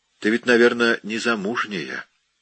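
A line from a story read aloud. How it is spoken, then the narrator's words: Soft question. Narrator (Russian): Он мягко спросил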